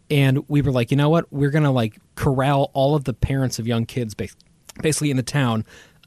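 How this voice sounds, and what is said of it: Choked up, emotional voice. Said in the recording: “I'm getting choked up talking about it.”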